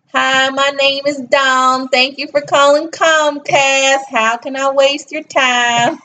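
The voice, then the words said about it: Put-on Southern American accent. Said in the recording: “That's a good Southern accent right there.”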